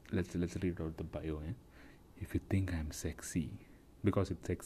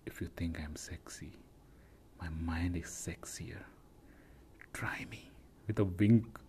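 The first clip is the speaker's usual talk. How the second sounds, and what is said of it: Exaggerated sultry sexy voice. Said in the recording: “I thought I'll read in sexy voice.”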